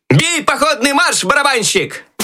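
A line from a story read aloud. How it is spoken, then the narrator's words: Loud shout. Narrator (Russian): Громко крикнул Щелкунчик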